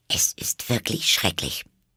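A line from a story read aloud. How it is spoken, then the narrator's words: Muttering to herself. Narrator (German): murmelte sie vor sich hin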